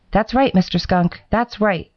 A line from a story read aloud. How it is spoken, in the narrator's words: said Mr